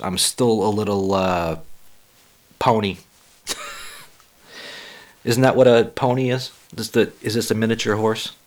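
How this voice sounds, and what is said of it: Hoarse, slightly croaky voice. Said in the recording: “my voice is still a little hoarse. ... I still have a frog in my throat.”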